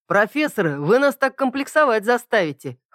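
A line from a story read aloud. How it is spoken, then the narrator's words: Chuckling young man. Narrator (Russian): хохотнул кто-то из парней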